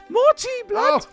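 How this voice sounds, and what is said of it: Put-on London teenager accent. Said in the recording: “you sound like a London teenager, you do.”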